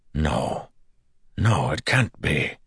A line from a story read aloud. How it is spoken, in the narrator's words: whispered